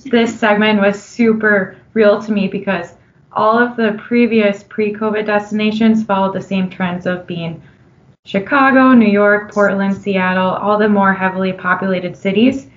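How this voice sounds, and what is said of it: Minnesotan accent. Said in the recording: “myself being from Minnesota, as you can probably tell in my Minnesotan accent”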